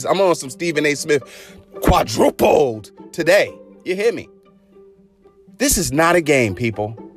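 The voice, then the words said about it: Loud raised voice. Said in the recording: “Turn the volume down, because I might be raising my voice.”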